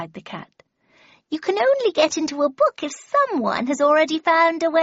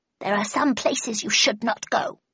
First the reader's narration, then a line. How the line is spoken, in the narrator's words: he muttered in a reproachful tone